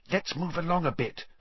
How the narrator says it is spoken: Hermione whispered

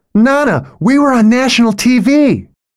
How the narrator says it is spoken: shouts

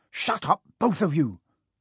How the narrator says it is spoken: said Harry sharply

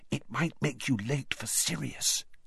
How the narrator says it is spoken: She looked nervously around and hissed

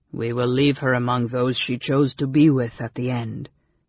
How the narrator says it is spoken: his companion said gravely

